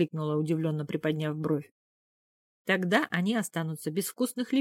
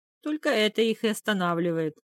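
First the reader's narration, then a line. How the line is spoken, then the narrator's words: King's hearty laughter. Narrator (Russian): расхохотался конунг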